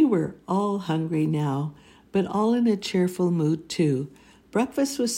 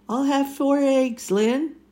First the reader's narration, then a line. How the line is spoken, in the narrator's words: he hollered out